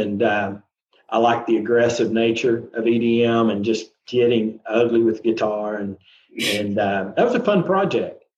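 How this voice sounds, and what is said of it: Southern American accent. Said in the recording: “they hear the southern accent”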